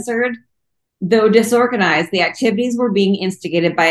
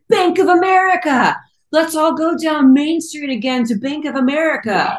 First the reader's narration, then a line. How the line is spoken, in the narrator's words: one guy shouted